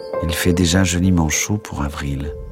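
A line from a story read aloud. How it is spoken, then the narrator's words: Plain. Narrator (French): dit Drogo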